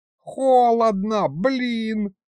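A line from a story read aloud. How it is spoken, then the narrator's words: Squeak. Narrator (Russian): пропищала левая голова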